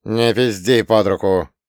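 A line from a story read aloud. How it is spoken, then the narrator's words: Grumbled. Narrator (Russian): буркнул потолок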